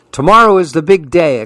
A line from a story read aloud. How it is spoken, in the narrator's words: exclaimed Leander